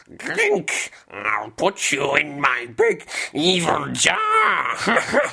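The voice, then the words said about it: Cartoon villain character voice. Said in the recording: “Let's hear your best impression. Do your Ganondorf... For the cartoon.”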